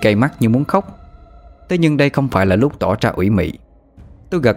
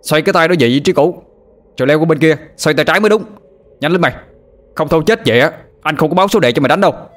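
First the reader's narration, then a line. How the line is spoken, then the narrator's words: Shouted without reproach. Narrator (Vietnamese): quát lên, hình như không có ý trách móc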